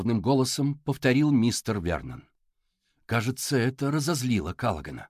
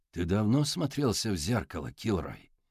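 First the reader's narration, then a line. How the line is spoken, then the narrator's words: Plain. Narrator (Russian): спросил мистер Вернон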